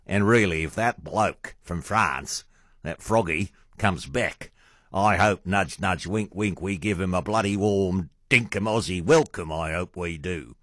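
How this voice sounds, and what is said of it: Bad put-on Australian accent. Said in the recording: “just how bad my Australian accent is”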